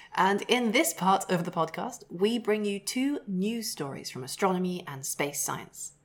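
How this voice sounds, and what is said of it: News-reader voice. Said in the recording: “I am talking in my news voice for the news section.”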